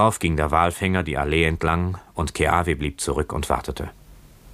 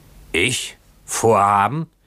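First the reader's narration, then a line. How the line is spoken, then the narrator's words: Boatswain shouting. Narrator (German): schrie der Bootsmann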